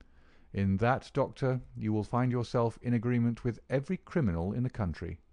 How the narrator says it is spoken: said my friend quietly

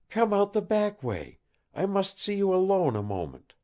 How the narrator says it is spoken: she pleaded

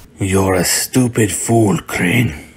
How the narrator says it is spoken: Bane grunted

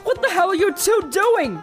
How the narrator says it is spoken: Luck screamed angrily

